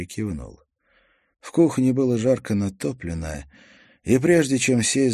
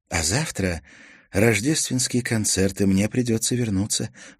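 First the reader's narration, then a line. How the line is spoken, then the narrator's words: Sighing. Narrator (Russian): вздохнула Мартина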